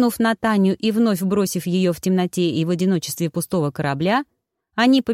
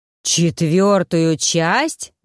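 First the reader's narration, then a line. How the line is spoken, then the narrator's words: Group howling. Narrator (Russian): взвыли браконьеры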